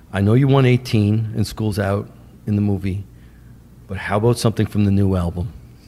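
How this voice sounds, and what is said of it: Deep, calm New York accent. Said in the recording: “he's got a New York accent. He talks like this. ... Very, very deep. ... Very, very calm.”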